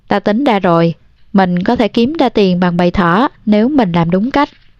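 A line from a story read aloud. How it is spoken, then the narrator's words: Smiling. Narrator (Vietnamese): Candy mỉm cười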